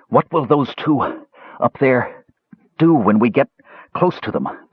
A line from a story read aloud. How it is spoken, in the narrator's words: Brandella asked between gasps